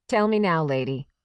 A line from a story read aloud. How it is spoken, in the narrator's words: the woman said